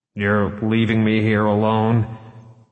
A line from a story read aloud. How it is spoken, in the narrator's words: Smithback asked a little unsteadily